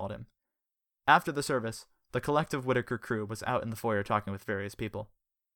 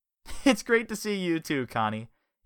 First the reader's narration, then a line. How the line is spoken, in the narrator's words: he laughed